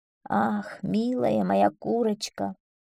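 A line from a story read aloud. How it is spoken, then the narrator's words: Sad. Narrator (Russian): сказала она печально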